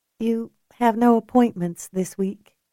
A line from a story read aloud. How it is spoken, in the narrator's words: Gwen said gently